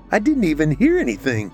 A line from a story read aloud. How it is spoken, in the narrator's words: Trina said with a shocked laugh